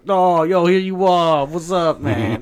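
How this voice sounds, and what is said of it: Exaggerated put-on Bronx accent. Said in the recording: “He's doing, like, super, like, Bronx accent.”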